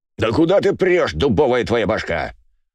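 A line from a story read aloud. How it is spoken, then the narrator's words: Loud yelling. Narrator (Russian): заорал Иваныч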